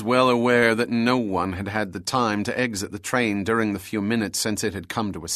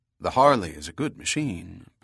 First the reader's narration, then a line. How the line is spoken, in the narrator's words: Bell said calmly